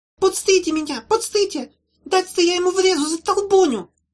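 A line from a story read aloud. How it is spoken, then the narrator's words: Squeaky female voice. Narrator (Russian): пищал кто-то женским голосом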